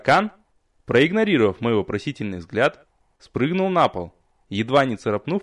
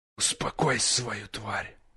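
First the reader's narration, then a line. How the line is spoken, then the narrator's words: Hissing whisper. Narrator (Russian): свистящим шепотом посоветовали мне сзади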